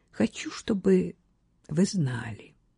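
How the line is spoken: Quiet. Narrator (Russian): тихо сказала Кат

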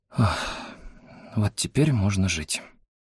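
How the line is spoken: Relieved exhale. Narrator (Russian): выдохнула Хэйон

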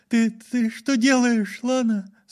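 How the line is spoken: Trembling voice. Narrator (Russian): спросила она дрожащим голосом

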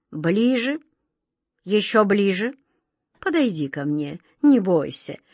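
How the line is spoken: King's gentle call. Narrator (Russian): ласково позвал король

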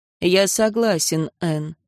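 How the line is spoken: Calm. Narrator (Russian): спокойно сказал Аарон

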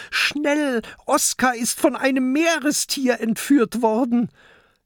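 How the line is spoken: Urgent call. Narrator (German): ruft zu Peter

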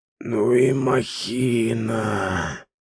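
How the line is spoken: Breathed out. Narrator (Russian): выдохнул Саир

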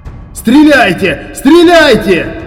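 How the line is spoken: Yelled. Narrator (Russian): завопил

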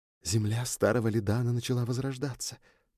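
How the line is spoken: Whispered. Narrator (Russian): прошептала Люча

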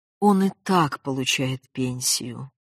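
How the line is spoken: Restrained, sad remark. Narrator (Russian): сдержанно и грустно заметил Яков Моисеевич

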